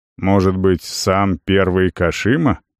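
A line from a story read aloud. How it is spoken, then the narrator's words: Snorting. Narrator (Russian): хмыкнул воин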